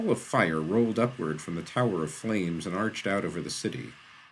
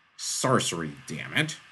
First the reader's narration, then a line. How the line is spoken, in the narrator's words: snapped the Lion